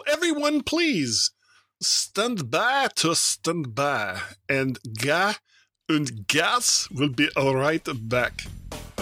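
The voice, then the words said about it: Badly done put-on accent. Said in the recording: “What a terrible accent.”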